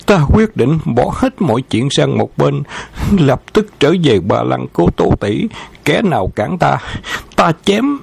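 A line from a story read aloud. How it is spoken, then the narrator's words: Panting, drunk. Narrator (Vietnamese): thở hổn hển nói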